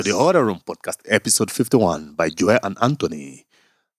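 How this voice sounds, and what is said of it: Put-on radio announcer voice. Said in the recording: “I'm working on my radio voice.”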